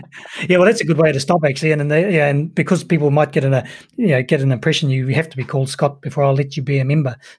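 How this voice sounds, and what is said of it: New Zealand accent. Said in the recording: “this fantastic Kiwi accent”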